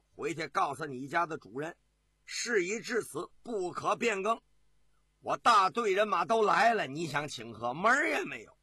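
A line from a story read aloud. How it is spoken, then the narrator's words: Cold laugh. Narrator (Chinese): 耶律德光啊，冷冷的一笑，对进使说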